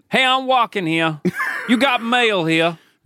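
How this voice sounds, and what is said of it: Put-on New York accent. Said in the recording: “New Yorker accent ... a New York accent”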